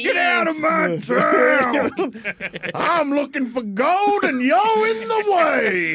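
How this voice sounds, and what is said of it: Old-timey Midwestern prospector accent. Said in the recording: “I hope he has a Midwestern accent ... a Kansas accent ... He's going to talk like an old-timey prospect.”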